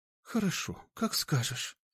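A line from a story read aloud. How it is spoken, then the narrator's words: Breathy exhale. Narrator (Russian): выдохнула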